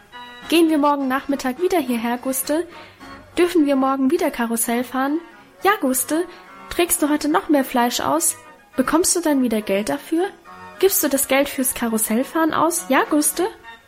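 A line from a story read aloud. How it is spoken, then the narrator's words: Excited overlapping chatter. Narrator (German): So schwatzten wir aufgeregt durcheinander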